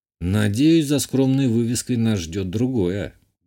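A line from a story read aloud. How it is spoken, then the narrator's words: Gruff mutter. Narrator (Russian): буркнул я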